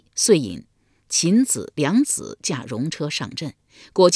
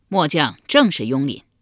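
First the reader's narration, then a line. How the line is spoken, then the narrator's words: Loud reply. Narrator (Chinese): 雍廪高声回道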